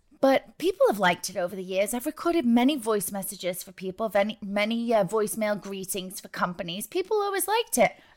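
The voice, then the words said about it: Northern English accent mixed with New York. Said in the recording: “I was born in the north of England, close to Manchester ... I was infiltrated by all you New York, New Jerseyers. So now my accent has a sense of confusion”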